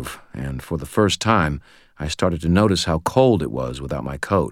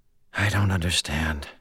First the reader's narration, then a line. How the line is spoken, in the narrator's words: whispered